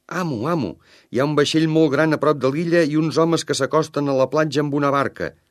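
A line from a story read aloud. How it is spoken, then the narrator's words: Shout. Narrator (Catalan): va cridar en divendres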